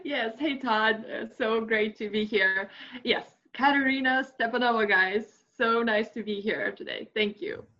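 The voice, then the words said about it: Texan-sounding American accent. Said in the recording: “the accent probably sounds like she's from like Texas, but she's actually from Russia”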